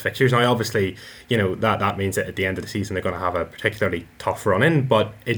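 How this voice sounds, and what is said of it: Northern Irish accent. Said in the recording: “the Northern Ireland accent ... the sexiest lilts ... you even had an accent”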